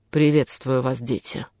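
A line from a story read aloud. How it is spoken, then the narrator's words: Deep voice, giant. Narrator (Russian): произнес великан глубоким голосом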